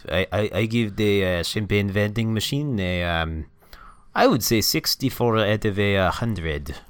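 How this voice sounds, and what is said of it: Accent that shifts and morphs. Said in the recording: “I don't know what happened to my accent... Oh, God, it's morphing.”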